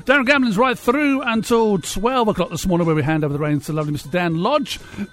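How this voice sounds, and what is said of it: Hoarse, croaky voice. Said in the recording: “I've got a bit of a frog in my throat this morning”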